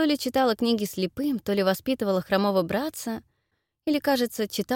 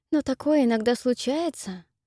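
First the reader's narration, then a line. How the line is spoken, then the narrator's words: Gentle objection. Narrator (Russian): мягко возражает Энн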